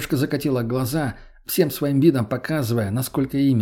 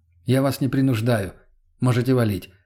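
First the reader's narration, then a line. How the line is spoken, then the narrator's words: Calm. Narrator (Russian): спокойно произнес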